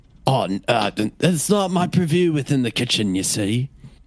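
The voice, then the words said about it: Inconsistent put-on British accent. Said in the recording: “my British accent is, like, everywhere ... all over many parts tonight.”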